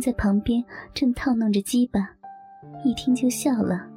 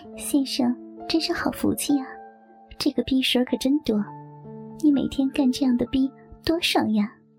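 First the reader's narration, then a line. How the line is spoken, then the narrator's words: Coquettish, sweet voice. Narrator (Chinese): 小姐娇声地冲小张说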